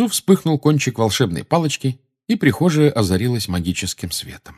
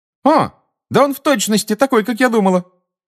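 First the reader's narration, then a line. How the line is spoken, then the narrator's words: Exclaiming. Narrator (Russian): воскликнула чародейка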